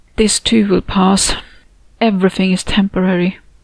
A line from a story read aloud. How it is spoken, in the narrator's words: sighed to myself